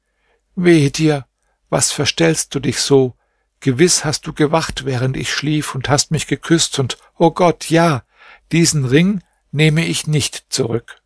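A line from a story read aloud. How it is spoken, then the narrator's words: Deep sigh, then speaking. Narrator (German): seufzte sie tief auf und sagte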